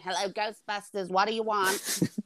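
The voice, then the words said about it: Impression of Janine from Ghostbusters. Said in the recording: “That was the worst impression ever. ... That's the best impression you've done”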